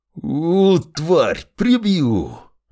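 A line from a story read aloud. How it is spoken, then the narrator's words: Distant growl. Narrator (Russian): Рычал уже поодаль Длинный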